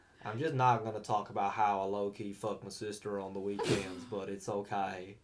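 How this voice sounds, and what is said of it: Put-on Alabama accent. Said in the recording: “I'm speaking my Bama accent from now on because I find it very funny ... your Alabama accent”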